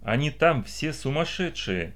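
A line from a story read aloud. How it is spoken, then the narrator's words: Quiet, calmer. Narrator (Russian): тихо сказала Эвелита, немного успокоившись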